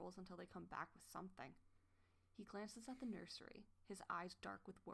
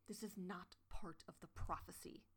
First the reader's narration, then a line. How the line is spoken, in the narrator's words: Goosefeather hissed